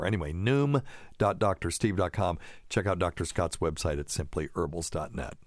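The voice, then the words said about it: Put-on radio announcer voice. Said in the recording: “putting on my best radio voice.”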